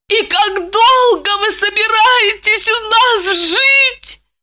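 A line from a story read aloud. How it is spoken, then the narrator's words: Moaning. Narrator (Russian): простонала она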